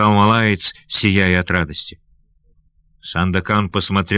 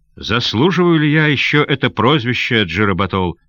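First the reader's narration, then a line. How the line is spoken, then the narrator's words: Plain. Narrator (Russian): спросил он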